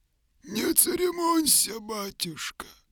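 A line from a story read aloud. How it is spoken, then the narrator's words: Muffled answer. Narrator (Russian): отвечал глухо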